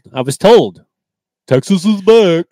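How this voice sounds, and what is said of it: Imitates another person's voice. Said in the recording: “my Mike Herndon impression”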